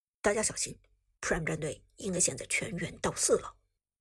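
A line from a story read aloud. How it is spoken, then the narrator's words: Low voice. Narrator (Chinese): 寒山低声说道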